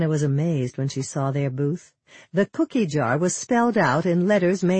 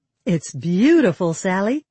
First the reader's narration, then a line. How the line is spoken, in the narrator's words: Hannah smiled happily